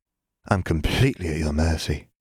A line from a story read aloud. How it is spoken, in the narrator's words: Katie breathed